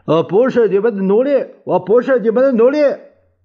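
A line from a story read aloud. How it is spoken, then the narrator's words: Angry shouting. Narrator (Chinese): 蒋介石正没好气儿，大叫着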